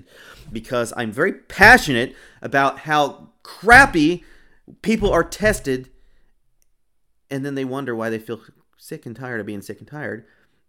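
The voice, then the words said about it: Raised, loud passionate voice. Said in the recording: “If I'm raising my voice, there's a reason”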